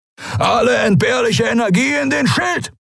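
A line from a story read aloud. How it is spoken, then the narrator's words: Bellowed command. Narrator (German): brüllte Askur von den Kemcha'an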